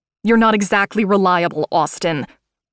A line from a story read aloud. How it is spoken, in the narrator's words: I snapped